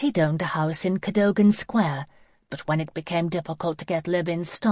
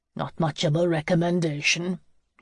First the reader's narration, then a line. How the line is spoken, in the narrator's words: Hugo grunted